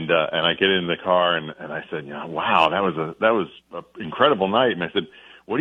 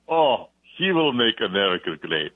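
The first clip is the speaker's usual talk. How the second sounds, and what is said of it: Deep put-on Eastern European accent. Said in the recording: “And a deep Eastern European accent.”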